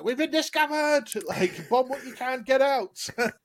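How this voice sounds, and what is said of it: Shrill shouting Scottish accent. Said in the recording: “very shrill when she's shouting, so to speak, with that Scottish accent.”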